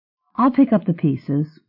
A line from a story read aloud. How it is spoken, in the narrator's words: Jeannie said in a soothing voice